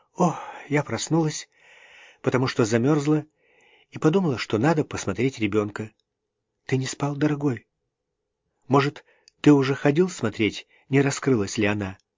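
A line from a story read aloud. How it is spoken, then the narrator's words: Forced calm answer. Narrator (Russian): Она постаралась ответить спокойно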